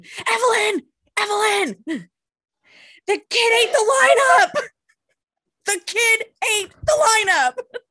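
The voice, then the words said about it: Shouting loudly. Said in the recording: “I'm shouting”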